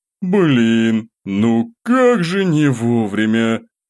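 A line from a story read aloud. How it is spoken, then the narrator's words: Displeased grumble. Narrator (Russian): Недовольно буркнул я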